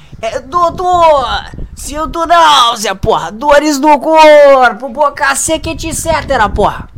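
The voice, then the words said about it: Imitates a drunk man's voice. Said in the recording (Portuguese): “Eu sou foda imitando bêbado, né, pô?”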